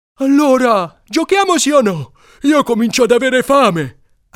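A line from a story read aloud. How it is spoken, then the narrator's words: Shouted. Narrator (Italian): ha gridato Alcide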